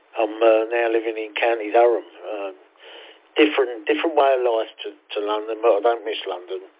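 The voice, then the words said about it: East End London accent. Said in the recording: “As you can tell by the accent, I'm from down south. Born and bred in the East End of London”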